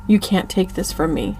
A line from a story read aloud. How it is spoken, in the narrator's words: I whispered into his ear